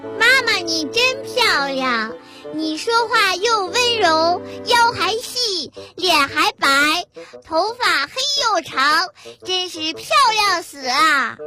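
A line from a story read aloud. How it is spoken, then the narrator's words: Anxious child, very loud. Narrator (Chinese): 儿子有点急了，对着他妈妈非常大声地说道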